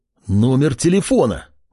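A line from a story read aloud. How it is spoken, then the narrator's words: Exclaiming. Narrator (Russian): воскликнул Кеша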